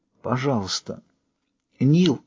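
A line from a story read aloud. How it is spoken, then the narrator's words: Barely audible whisper. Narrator (Russian): Едва слышно прошептала она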